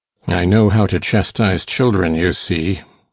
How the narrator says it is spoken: said the scoundrel grimly

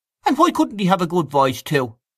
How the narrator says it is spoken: asked Freddy Mallon sharply

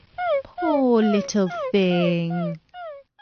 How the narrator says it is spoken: said Alice in a coaxing tone

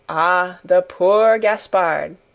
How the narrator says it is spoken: with a sigh of great compassion

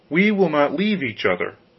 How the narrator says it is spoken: Rose Red answered

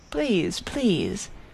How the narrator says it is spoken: he pleaded over returning phrases of avowal

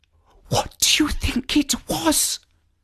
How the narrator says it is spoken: whispered Liz

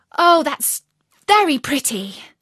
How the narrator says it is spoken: cried Alice

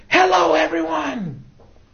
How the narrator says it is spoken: Oprah screaming

